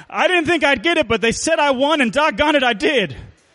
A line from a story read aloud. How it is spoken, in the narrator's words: Pa exclaimed